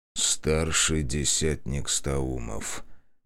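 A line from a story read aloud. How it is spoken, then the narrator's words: Quiet. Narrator (Russian): тихо произнес он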